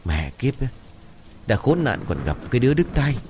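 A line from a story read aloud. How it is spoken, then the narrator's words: Old woman muttering irritably. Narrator (Vietnamese): Bực mình, bà Sàn lẩm bẩm khe khẽ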